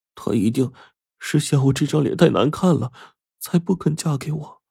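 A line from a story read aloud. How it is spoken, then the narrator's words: Muttering to oneself. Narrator (Chinese): 扇子喃喃自语说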